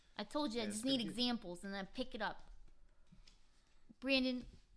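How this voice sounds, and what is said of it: Usual voice. Nothing is said of it.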